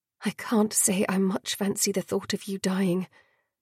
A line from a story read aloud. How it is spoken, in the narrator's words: Dior murmured